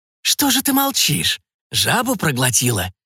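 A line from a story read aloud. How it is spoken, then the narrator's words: Witch's whisper, creaking laugh. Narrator (Russian): прошептала колдунья, и ее смех, похожий на скрип несмазанной телеги, больно ударил по ушам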